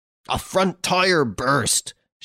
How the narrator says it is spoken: shouted Rossigny

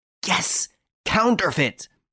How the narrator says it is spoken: he exclaimed in a fit of rage

